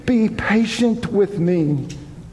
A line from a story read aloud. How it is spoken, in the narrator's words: begged